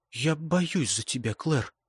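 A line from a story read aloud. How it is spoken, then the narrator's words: Whisper. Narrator (Russian): прошептала Беттон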